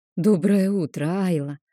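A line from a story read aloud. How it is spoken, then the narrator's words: Forced out, caught off guard. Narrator (Russian): выдавила из себя, застегнутая врасплох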